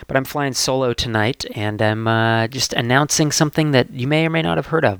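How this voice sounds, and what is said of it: Congested voice from a head cold. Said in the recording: “I have a bit of a head cold, so I apologize for my voice”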